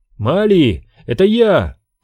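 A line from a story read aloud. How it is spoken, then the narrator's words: Shout. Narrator (Russian): крикнул Оби-Ван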